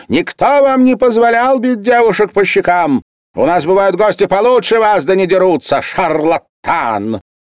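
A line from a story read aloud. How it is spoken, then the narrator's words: Shrill woman's shout. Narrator (Russian): высокая полная хозяйка и кричала визгливым голосом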